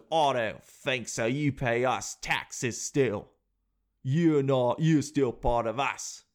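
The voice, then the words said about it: Put-on Australian-sounding accent. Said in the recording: “I don't know why I sound so Aussie”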